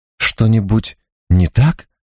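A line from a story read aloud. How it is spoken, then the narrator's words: Trembling voice. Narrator (Russian): осведомился Ризничий дрожащим голосом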